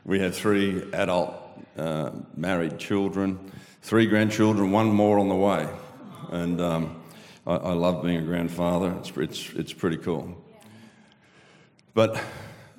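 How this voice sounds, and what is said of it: Australian accent. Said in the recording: “an Aussie audience who understands my accent”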